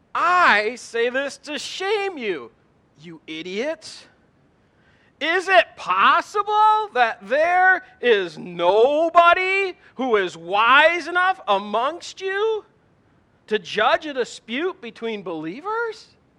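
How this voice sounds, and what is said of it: Sarcastic Gen X-style reading. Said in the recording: “my best Gen X impersonation ... How's that for sarcasm?”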